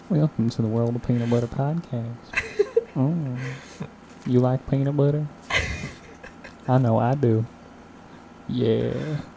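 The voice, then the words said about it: Soft ASMR-style podcast voice. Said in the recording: “That's for the ASMR fans out there.”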